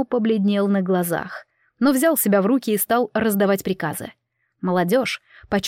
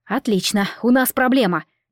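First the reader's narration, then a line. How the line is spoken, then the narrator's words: Interrupting. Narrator (Russian): не стала дослушивать я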